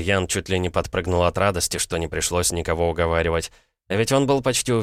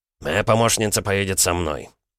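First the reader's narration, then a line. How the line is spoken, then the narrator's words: Peremptory healer. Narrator (Russian): безапелляционным тоном произнес целитель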